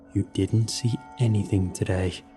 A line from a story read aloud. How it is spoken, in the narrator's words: Eric whispered